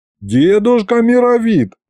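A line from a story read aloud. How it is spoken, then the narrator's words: Pleading. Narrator (Russian): взмолился я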